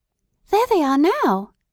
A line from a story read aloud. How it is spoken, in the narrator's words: cried Edith